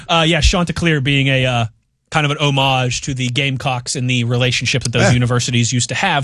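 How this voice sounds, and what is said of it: Strong outrageous regional accent. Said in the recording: “my outrageous accent”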